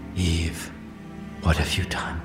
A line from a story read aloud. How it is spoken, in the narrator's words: He whispered